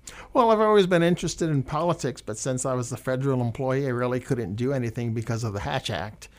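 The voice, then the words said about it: Slight regional accent. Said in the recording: “you can probably detect a bit of an accent in my voice”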